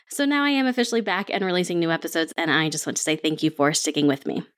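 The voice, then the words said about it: Congested, sinusy voice. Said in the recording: “I have a little bit of a sinus thing, so I'm not sure if you can tell in my voice”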